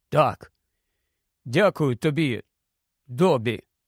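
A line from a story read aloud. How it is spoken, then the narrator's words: Hoarse after clearing throat. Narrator (Ukrainian): прокашлявся і сказав раптом охриплим голосом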